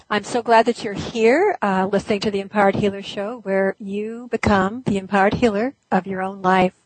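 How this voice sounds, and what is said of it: Froggy, hoarse voice. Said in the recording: “I'm kind of froggy today, so hopefully my voice is going to hold out.”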